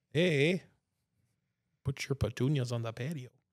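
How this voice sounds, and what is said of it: Put-on Yooper accent. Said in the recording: “gets a bit youpery sometimes ... my dad has the accent.”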